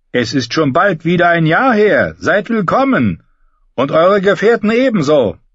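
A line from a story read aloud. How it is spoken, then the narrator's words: Called out. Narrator (German): rief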